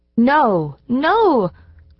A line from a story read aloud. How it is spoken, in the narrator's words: cried several little voices